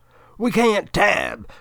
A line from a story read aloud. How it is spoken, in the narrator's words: Kalima Millack screams at Mr